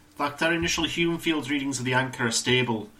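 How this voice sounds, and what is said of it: Weird put-on Scottish accent. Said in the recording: “I just sort of let whatever voice was coming out of me just come out there. It's like a weird Scottish accent.”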